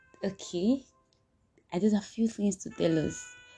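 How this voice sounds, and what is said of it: Hushed, whisper-like speech. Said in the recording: “Why am I talking that as if I'm whispering?”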